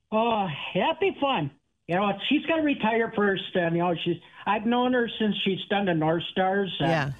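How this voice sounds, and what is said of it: Strong Minnesotan accent. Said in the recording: “you're single-handedly the most Minnesotan accent of anyone that's ever been on our show”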